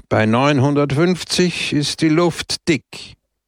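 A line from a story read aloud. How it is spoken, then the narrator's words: Raised voice. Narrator (German): sagte mit erhobener Stimme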